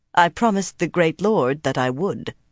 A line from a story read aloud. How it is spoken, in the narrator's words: she told it coldly